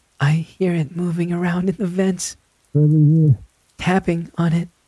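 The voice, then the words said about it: Whispering. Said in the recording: “Caller goes quiet, whispering.”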